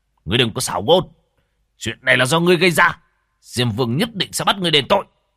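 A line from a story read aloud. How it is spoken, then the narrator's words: Angry ghost envoy. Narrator (Vietnamese): Quỷ sử tức giận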